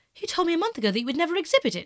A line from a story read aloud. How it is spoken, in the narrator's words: he cried